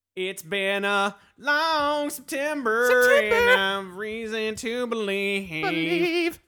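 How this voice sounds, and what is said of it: Imitates a rock band singer's voice. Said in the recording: “my Counting Crows impersonation.”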